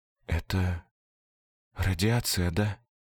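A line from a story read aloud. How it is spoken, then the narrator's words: Barely audible whisper. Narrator (Russian): Почти неслышно, одними губами прошептала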